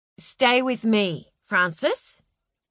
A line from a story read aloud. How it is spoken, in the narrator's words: said Delilah